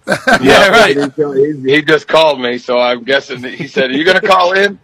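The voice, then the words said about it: Southern accent. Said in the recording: “We know that Southern accent.”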